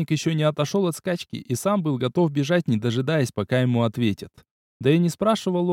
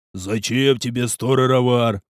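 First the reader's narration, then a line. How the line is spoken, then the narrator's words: Booming. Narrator (Russian): прогудел стражник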